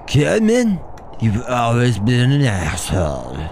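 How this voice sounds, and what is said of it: Drunk-sounding imitation of another's voice. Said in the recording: “does he sound like a drunk Sylvester Stallone”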